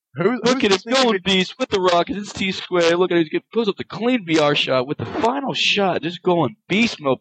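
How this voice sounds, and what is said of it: Imitates another person's voice. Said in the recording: “that is my impersonation of Chris Puckett”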